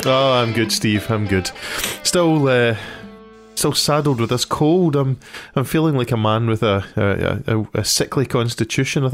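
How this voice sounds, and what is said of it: Warm Scottish Argyll brogue. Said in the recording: “your warm Argyle brogue ... the man from Argyle”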